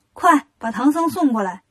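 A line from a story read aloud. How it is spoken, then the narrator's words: Shouting. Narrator (Chinese): 女妖喊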